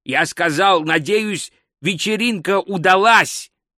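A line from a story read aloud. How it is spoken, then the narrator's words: Loud repetition. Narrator (Russian): громко повторил Гальдер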